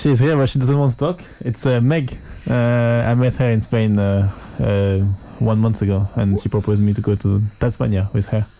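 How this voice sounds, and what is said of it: Slight French accent. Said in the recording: “I detected a little bit of an accent... Yeah, I'm French.”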